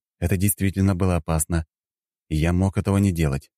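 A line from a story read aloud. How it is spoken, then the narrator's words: Calm. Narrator (Russian): спокойно произнес я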